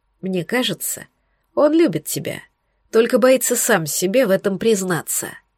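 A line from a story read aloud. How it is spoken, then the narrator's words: Quiet, wary of being overheard. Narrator (Russian): сказала тихо Каиса, словно боялась, что ее могут услышать кухарка или маленькая девочка-рабыня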